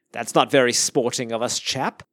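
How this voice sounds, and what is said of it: Semi-British accent. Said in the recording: “for some reason I had to say that in a semi-British accent.”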